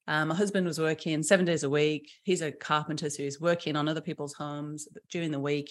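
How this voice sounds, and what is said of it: British accent. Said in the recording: “I'm from the UK, obviously by the accent.”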